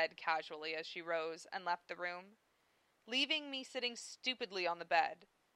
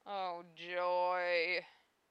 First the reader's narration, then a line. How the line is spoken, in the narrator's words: I moaned